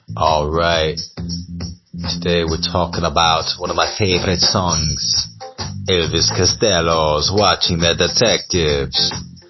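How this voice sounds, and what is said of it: Put-on Jamaican accent. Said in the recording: “I'm doing a Jamaican accent”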